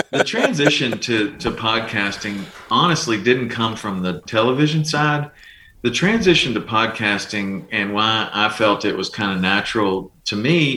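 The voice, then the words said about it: Calm voice with southern drawl. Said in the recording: “a calming voice ... It's probably my southern drawl. ... Probably.”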